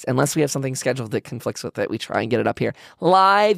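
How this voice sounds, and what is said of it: Strained voice that is giving out. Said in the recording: “Losing my voice.”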